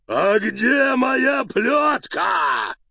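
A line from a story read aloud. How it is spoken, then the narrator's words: Growled. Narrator (Russian): зарычал Карабас-Барабас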